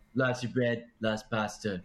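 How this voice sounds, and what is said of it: Imitates another person's voice. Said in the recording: “Trump impersonation ... My best Trump impersonation I could do.”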